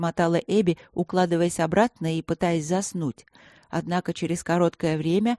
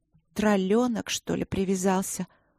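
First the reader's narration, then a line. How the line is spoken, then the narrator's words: Sleepy thought. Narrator (Russian): сонно подумала Горни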